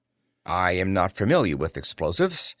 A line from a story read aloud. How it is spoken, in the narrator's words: Tarnhorst said